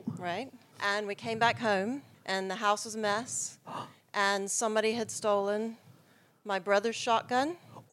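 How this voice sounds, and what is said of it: North American accent. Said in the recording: “Do I detect a North American accent?”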